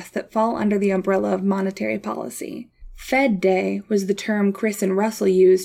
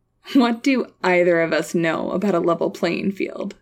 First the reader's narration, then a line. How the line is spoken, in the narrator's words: said Chris, chuckling